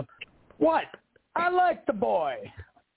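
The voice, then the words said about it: Impression of John Amos's Cleo McDowell. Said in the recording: “me do a quick impression ... I'm going to do John Amos's Cleo McDowell from Coming to America”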